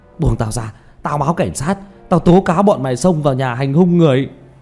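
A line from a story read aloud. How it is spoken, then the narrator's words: Furious roar. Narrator (Vietnamese): Lưu Kế Toán gầm thét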